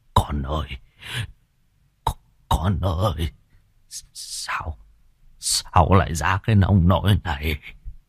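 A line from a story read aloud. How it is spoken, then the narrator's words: Stammering in shock. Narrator (Vietnamese): ông lắp bắp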